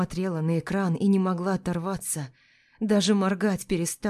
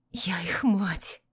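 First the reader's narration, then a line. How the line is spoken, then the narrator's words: Whisper. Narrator (Russian): прошептала я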